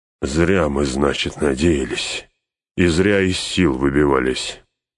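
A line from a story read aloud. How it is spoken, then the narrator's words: Grated through teeth. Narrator (Russian): сквозь зубы проскрежетал Гимли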